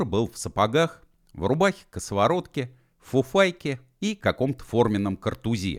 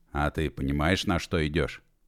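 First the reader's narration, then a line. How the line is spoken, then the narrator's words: Quiet, serious question. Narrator (Russian): Негромко и серьезно спросил начальник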